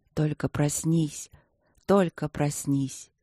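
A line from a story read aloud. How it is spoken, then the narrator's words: Whisper. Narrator (Russian): шептал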